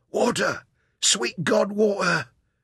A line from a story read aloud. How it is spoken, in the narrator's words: his voice was gagged by his swollen purple tongue